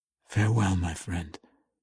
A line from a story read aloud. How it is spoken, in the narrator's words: Drizzt whispered, trying futilely to keep his voice from breaking